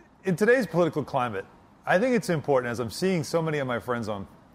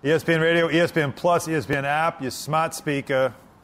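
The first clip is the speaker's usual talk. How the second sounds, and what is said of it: Put-on accent. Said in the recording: “I love when you do that accent.”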